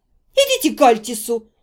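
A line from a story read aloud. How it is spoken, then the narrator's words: Angry advice. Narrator (Russian): зло посоветовала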